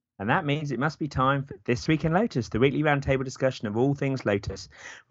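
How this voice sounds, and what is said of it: Hoarse voice. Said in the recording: “Bit of a cold, so I'm probably a bit hoarse today”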